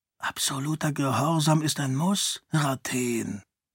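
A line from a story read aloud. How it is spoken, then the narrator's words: Whispered. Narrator (German): flüsterte Dilaf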